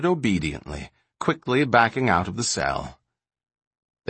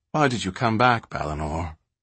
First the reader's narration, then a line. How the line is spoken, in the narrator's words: The words came out slowly, sadly